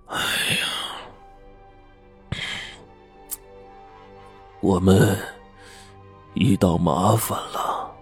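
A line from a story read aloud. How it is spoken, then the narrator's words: Long heavy sigh. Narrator (Chinese): 吴教授长叹一口气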